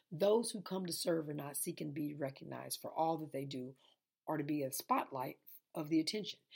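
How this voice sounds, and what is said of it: Tired, sleepy monotone voice. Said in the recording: “I'm really sleepy right now ... So I am very tired, very, very tired ... y'all can probably tell it in my monotone voice”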